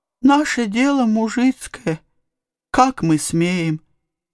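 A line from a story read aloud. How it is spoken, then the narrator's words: Sobbing peasant woman. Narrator (Russian): начала было всхлипывая баба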